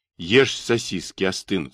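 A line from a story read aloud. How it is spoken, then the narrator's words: Plain. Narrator (Russian): сказал я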